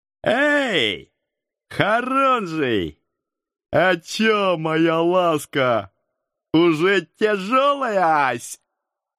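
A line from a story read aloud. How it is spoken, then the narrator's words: Loud shout. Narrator (Russian): громко крикнул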